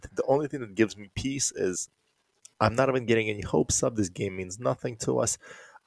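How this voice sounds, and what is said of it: Sick-sounding voice. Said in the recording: “Now you got COVID ... As you can hear by my voice,”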